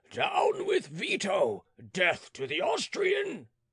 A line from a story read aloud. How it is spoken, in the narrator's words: A gigantic man, armed with a pike and roaring louder than the rest